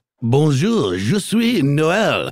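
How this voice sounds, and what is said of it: Outrageous cartoonish fake French accent. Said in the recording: “you can tell I am French by my outrageous accent ... Sort of a Disney Beauty and the Beast vibe ... the cartoonish French accents”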